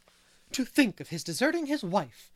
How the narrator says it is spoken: she said indignantly

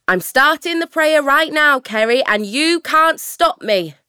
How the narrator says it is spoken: she shouts

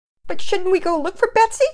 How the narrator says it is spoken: Penelope pleaded

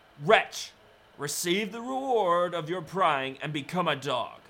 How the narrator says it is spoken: she cried madly

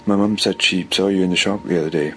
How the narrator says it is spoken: said

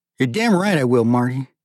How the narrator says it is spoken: answered Thierry coldly

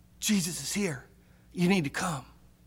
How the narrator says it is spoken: she whispers

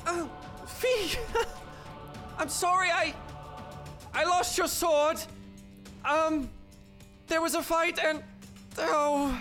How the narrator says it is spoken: she'll shout out

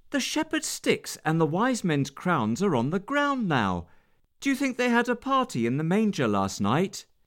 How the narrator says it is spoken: exclaimed

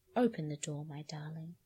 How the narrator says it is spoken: he said, very quietly indeed

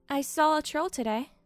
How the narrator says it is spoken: Akan said, keeping her voice casual

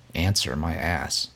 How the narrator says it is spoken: she grumbles

